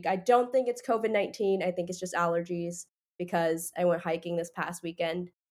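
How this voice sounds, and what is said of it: Congested, stuffy-nosed voice. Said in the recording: “I am a bit sick right now. My sinuses are kind of messed up, so that's why my voice is a little weird.”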